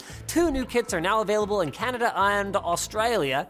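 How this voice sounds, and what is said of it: Put-on Australian accent. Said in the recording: “Is that a good Australian accent?”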